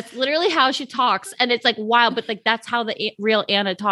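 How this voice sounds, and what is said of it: Usual voice. Nothing is said of it.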